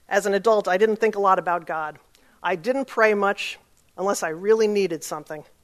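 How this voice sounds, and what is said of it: New York accent. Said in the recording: “as you can tell from my accent, I'm from New York”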